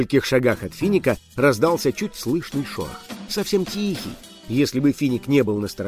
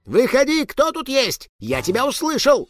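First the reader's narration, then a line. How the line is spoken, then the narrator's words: Shouting. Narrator (Russian): закричал Финик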